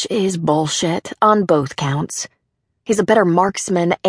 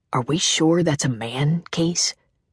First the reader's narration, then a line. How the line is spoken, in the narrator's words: Anders whispers